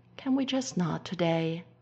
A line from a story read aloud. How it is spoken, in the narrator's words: Styles sighs, feeling very tired